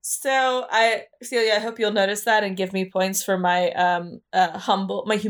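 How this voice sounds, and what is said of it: Usual voice. Nothing is said of it.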